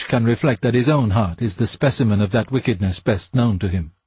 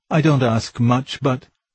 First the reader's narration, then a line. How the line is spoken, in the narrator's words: They begin whimpering to us